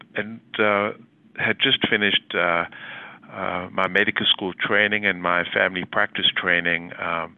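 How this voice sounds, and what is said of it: South African accent. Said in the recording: “As you may well recognize from my accent, I'm from South Africa”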